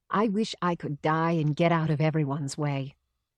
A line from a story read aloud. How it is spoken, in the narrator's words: my mother says quietly